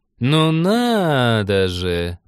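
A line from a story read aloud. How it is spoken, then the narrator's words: Drawn-out voice. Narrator (Russian): протянула Авшурка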